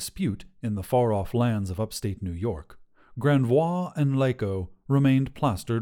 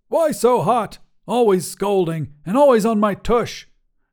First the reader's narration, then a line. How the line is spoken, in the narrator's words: shouted Granvois